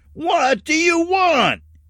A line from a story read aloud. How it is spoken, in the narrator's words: he shouted